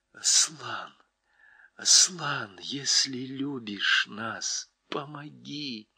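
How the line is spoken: Whispered plea. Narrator (Russian): Люси прошептала

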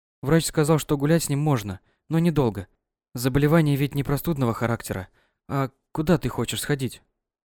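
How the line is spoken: Timid question. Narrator (Russian): Робко поинтересовалась

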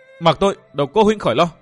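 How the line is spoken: Hissing. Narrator (Vietnamese): Nàng rít lên

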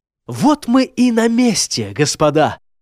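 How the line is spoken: Excited announcement. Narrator (Russian): взволнованно объявил Фернард

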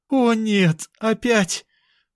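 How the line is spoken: Moaned. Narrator (Russian): простонала сестра

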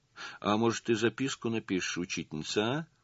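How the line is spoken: Timid request. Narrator (Russian): Робко попросила Лиля

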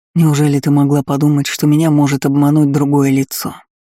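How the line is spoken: Weary smirking sergeant. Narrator (Russian): Устало усмехнулся старшина

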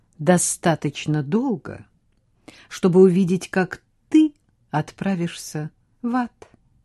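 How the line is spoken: Calm reply. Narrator (Russian): спокойно ответил Хьюго

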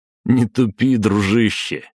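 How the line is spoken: Laughing. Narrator (Russian): хохотнул Белозеров

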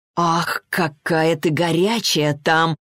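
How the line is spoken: Moaning. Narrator (Russian): простонал он

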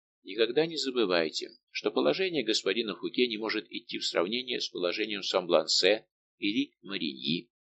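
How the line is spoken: Gentle tone. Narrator (Russian): сказал ласковым тоном

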